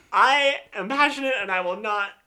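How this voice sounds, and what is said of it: Shouting, loud voice. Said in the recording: “You're shouting again.”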